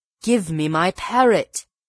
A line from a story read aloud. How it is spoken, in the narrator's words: The magician cried in an imploring voice